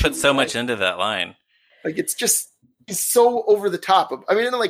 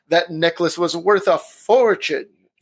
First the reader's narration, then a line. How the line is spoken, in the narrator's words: Diana Rigg ... rolls her eyes and waves her hand in the air as she says